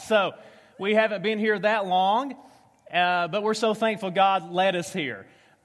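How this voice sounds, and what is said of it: Southern US accent. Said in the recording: “I speak fluent redneck. I am from Tennessee, spent the last 10 years in Kentucky ... a southern accent ... southern English”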